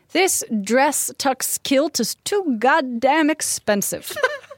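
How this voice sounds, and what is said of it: Put-on accent. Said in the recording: “I like your accent. ... I don't know where it's coming from, but here it is.”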